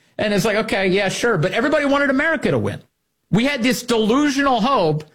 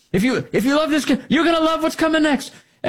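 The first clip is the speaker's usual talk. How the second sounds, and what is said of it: Made-up accent. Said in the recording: “I'm making up an accent here.”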